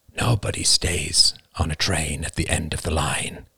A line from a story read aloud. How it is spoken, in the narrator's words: his father had murmured